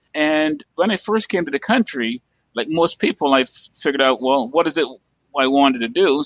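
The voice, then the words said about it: Caribbean accent. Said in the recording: “as you probably can tell from my accent, I'm from the Caribbean”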